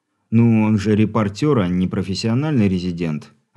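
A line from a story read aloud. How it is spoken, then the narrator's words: Sighing. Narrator (Russian): вздохнул Алексей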